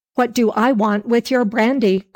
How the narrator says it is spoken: cried the man in a rage

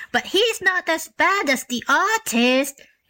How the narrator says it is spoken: exclaimed the donkey

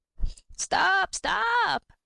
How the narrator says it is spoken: cried his mother when she saw him running away

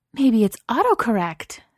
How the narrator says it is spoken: Safi said, her voice rising in high-pitched delight

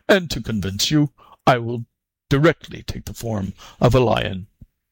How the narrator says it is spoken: replied the ogre, somewhat sternly

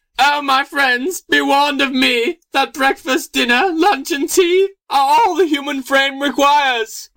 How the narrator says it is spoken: with his latest breath, cried

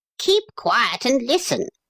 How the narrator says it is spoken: snapped the wee yellow man

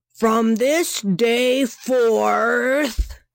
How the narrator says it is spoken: roared

